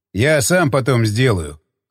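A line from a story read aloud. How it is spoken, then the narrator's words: Wry snort. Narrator (Russian): хмыкнул он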